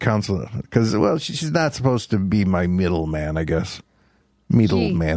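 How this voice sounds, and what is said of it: Usual voice. Nothing is said of it.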